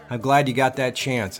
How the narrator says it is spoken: I said

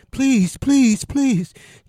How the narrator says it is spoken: Cheetah cried

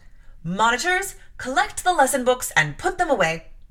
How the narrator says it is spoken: she cried out

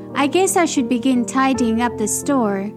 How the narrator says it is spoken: said Mickey with a sigh

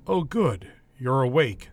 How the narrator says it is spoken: the doctor said

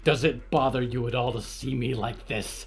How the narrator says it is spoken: She asked, snarling with punctured lips

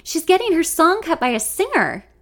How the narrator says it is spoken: Lexi, not thinking, blurts out

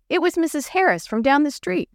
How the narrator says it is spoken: Jenny answered

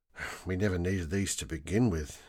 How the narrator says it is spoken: muttered

